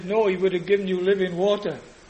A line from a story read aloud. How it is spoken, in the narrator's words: Shane very quickly said